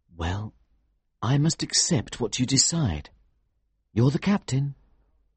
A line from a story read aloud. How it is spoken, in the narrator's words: said quietly